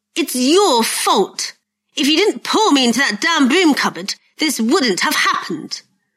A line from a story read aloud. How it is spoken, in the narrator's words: Malfoy spat at him